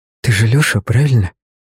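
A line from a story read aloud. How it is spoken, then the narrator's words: Quick near-whisper. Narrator (Russian): Быстро, почти шепотом проговорила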